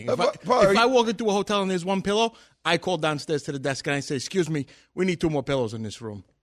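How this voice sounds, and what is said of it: Thick New York accent. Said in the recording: “very thick New York accent”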